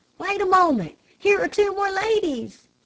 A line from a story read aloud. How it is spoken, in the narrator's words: I heard a shout